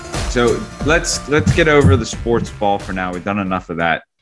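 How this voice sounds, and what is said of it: Usual voice. Nothing is said of it.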